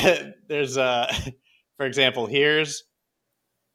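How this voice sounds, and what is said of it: Usual voice. Nothing is said of it.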